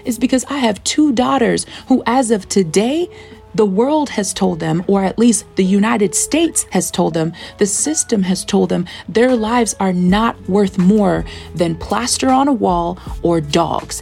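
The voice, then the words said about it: Yelling, impassioned loud speech. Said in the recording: “the reason why I'm yelling about this”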